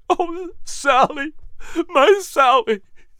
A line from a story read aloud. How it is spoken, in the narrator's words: Patrick buried his face into her hair and rocked her back and forth, sobbing